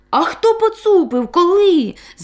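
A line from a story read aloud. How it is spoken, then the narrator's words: Frightened exclamation in unison. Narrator (Ukrainian): злякано вигукнули разом Бобик та Козлик Буцик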